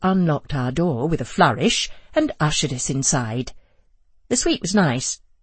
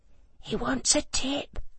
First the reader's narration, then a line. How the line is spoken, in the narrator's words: I hissed to Joe